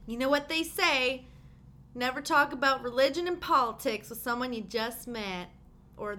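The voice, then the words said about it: Put-on American accent. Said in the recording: “Why are you talking in like an American accent?”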